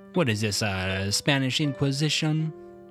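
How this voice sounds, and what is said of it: Put-on thick Italian accent. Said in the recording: “in very thick Italian accents ... Is that an Italian accent?”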